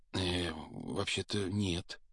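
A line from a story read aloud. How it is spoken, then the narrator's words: Timid, forced out. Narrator (Russian): робко выдавил из себя Гарри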